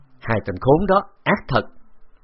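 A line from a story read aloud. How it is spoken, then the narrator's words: Angry through gritted teeth. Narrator (Vietnamese): Khấu Trọng nghiến răng, giận dữ nói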